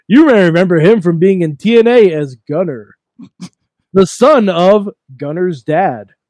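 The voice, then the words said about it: Wrestling color commentator voice. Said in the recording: “do my former color voice.”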